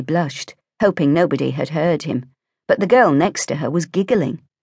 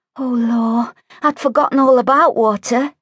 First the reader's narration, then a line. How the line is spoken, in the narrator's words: Lucy moaned